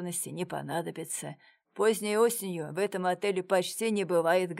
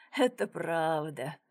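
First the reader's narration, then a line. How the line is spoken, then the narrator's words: Laughing. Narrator (Russian): рассмеялся Сарычев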